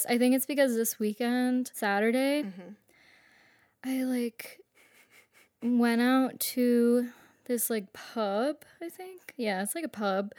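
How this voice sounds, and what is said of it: Hoarse, fading voice. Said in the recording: “I'm like losing my voice.”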